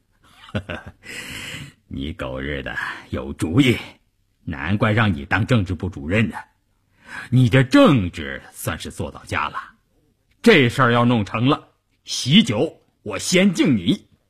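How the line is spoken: Relieved grinning. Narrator (Chinese): 关山林愁云顿解，咧开嘴笑着说

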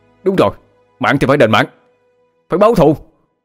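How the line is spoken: Agitated group yelling. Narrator (Vietnamese): Các thành viên cũng kích động mà gào lên

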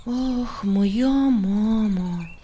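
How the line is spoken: Sigh. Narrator (Russian): вздохнул Андрейка

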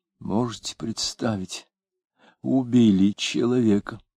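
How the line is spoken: Quiet, surprised. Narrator (Russian): говоря негромко и удивленно

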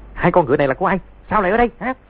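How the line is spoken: Shouted. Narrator (Vietnamese): tiếng quát

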